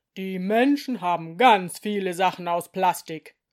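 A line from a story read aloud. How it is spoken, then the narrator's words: Booming voice. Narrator (German): sagte Direktor Tombel gerade mit seiner dröhnenden Stimme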